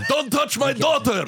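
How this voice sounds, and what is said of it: Angry put-on Greek accent. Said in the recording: “you do a Greek accent? ... the angriest version of a Greek accent”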